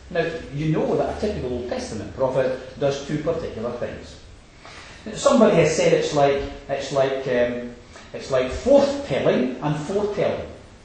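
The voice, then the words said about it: Yorkshire accent. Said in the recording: “Did you see the difference in the Yorkshire accent there?”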